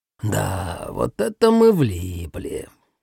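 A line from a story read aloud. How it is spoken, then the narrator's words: Displeased drawl. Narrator (Russian): протянул, недовольно сморщившись, Нагара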